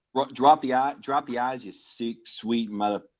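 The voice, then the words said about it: Put-on Boston accent. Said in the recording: “I can do a pretty good East Coast Boston”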